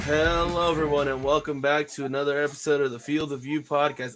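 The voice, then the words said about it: Flat, unenthusiastic sounding voice. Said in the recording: “My voice may sound like I don't want to be here”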